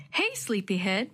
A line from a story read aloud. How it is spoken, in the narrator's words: Mom said cheerfully